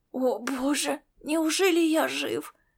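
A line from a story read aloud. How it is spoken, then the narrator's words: Hoarse wheeze. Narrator (Russian): прохрипел он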